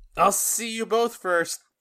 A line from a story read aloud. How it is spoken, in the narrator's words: Solaria yells